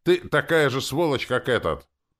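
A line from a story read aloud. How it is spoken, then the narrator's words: Apologetic. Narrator (Russian): сказал, виновато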